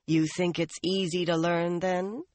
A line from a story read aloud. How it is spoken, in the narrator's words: Nynaeve asked dryly